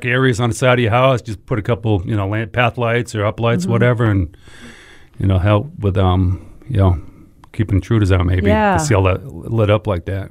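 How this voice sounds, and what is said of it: Northern US accent, not Southern. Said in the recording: “you haven't gotten one piece of Southern Southern accent. You totally kept your other accent. ... Damn Yankee. ... you said dark, I think, and I thought ... you said duck ... oh, he said dock.”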